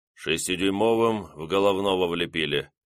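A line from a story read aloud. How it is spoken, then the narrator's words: Grumbling mutter. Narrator (Russian): пробурчал наводчик третьего орудия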